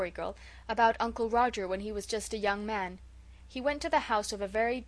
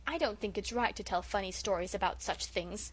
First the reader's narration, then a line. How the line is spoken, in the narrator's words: said Felicity coldly